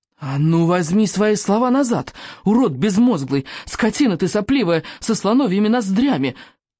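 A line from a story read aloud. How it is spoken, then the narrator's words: Angry yelling. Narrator (Russian): заорал Икинг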